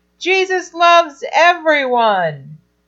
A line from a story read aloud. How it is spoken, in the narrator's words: And all the kids shouted back